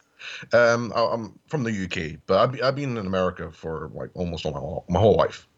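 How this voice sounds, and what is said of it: Wandering British Isles accent. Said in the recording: “accent because it seems to be wandering all over the place, British Isles-wise”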